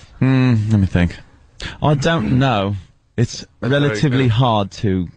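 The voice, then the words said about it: Attempted British accent, fairly good. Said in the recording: “Can you do a British accent? ... That's not bad. ... That's very good.”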